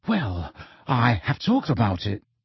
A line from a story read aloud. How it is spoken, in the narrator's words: said in a whisper